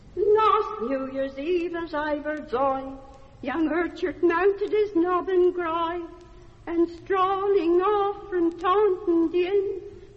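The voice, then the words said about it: Rural English West Country dialect singing. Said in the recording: “real Mummerset English dialect songs ... sung now in the accent of another”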